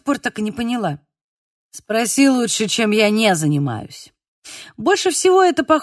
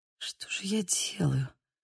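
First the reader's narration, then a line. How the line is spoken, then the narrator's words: Muttering to herself. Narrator (Russian): пробормотала я скорее сама себе, чем ему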